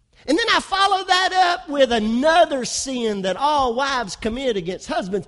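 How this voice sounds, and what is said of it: West Kentucky accent. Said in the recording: “my West Kentucky accent”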